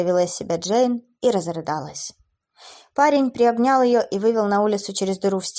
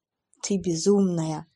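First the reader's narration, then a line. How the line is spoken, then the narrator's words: Smiling private whisper. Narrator (Russian): улыбаясь, прошептал блондин, чтобы никто, кроме Эбби, не услышал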